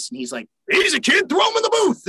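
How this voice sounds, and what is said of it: Imitates another person's voice. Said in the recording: “That's my best impression of my dad. by the way, it's a mini version of him.”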